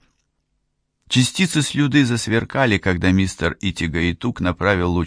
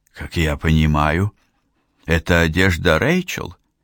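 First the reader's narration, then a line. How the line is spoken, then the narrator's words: Hoarse. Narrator (Russian): хрипло сказала, наконец, Лидия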